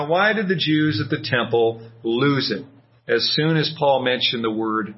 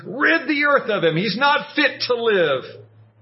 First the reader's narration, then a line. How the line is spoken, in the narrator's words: They went crazy and started shouting